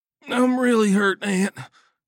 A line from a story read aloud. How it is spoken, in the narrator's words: moaned